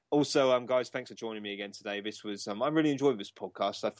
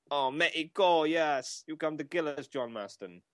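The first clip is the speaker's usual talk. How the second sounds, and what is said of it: Put-on Mexican accent. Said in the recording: “I was wondering when we'd hear an accent from you.”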